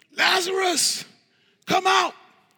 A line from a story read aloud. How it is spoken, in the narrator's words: he cried out with a loud voice